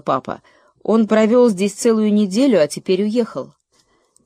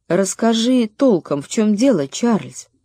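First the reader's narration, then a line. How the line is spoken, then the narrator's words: Quiet mother. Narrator (Russian): Мама тихо сказала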